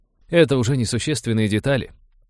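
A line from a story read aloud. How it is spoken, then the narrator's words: Overly cheerful interruption. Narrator (Russian): преувеличенно бодро перебил Роджер, опасаясь, что при дальнейшем перечислении биологи предпочтут сдаться прямо здесь и сейчас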